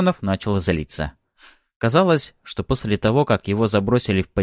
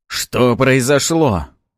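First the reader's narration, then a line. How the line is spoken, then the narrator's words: Frightened shout. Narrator (Russian): испуганно выкрикнул Арманов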